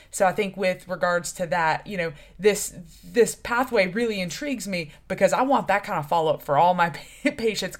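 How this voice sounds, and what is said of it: Unusual New England accent. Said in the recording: “you have the strangest New England accent I've ever heard.”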